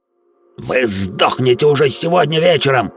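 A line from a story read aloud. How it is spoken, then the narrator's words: Shouted while spitting. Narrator (Russian): отплевываясь, выкрикнул Харви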